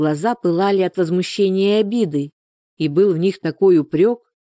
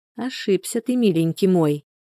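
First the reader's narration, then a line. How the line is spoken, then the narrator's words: Quiet. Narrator (Russian): тихонько проговорила она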